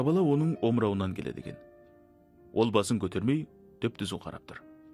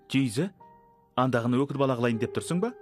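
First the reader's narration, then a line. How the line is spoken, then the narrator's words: Woman shouting. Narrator (Kazakh): деп айғайлады бет шарық табақтай бір қатын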